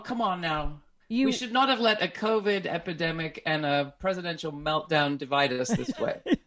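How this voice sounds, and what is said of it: British accent. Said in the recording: “You have a British accent.”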